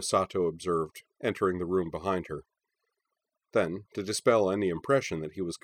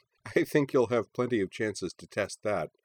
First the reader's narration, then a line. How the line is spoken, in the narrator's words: she said